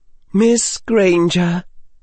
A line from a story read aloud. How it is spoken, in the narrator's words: she said in a soothing voice